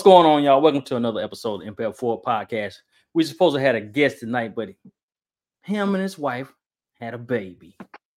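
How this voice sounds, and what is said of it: Southern country accent. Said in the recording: “my country talking self”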